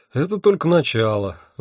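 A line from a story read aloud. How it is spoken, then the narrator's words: Sighing. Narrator (Russian): вздохнул я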